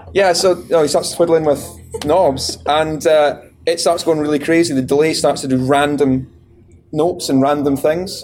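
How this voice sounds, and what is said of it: Strong regional accent. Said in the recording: “can you put subtitles in for him? ... I do apologize for the accent.”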